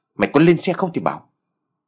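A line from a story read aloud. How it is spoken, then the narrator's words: Loud shout. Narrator (Vietnamese): Tân quát lớn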